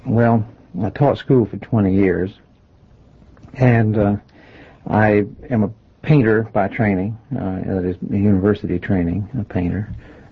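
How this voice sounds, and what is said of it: Rural hill-country accent. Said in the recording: “I'm afraid my voice hasn't lost its hill”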